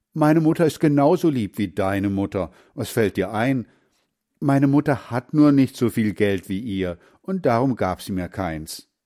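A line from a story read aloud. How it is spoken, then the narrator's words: Called out. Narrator (German): rief Heinz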